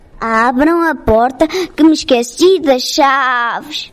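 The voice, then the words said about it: Imitated mother goat voice. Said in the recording (Portuguese): “Respondeu o lobo, imitando a voz da cabra.”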